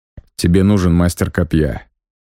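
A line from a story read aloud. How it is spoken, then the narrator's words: Plain. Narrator (Russian): сказал Галат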